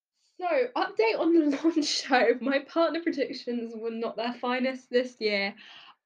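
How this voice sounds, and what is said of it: Congested, slightly odd-sounding voice. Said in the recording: “I sound a little weird, I've currently got a cold”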